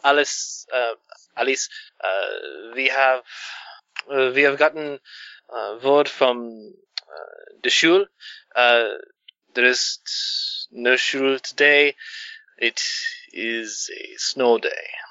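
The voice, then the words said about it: Put-on German Berlin accent. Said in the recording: “I can do a Berlin accent.”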